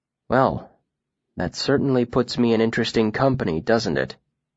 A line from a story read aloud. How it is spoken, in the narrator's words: he said dryly